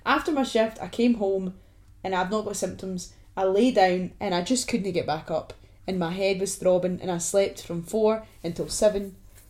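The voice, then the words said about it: Voice affected by a cold. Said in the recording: “I'm just got the cold, if you can hear it in my voice”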